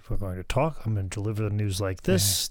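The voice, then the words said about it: Flat, bland news-anchor delivery. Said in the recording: “dry, straight, bland Midwest accent as an announcer ... Very straight ahead ... No accent whatsoever. No sharp inflections.”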